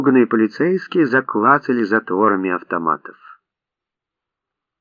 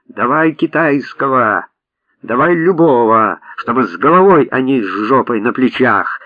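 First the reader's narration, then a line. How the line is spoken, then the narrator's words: Furious full-throated shout. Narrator (Russian): Рон в бешенстве закричал во всю свою глотку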